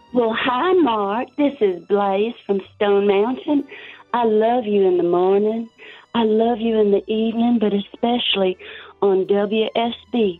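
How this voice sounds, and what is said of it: Southern accent. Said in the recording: “let's hear your Southern accent.”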